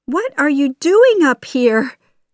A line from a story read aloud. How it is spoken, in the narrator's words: She cried